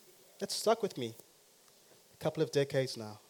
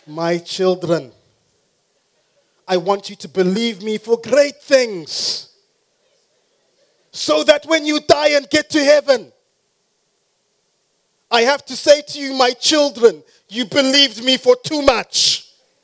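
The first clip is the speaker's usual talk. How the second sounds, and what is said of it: Put-on Afrikaans accent. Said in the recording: “this is my Afrikaans accent, by the way.”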